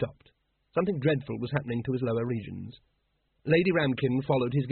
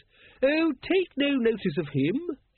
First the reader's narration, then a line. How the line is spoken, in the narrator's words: she said cheerfully